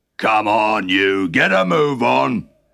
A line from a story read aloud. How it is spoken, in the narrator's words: grunted Fat Tug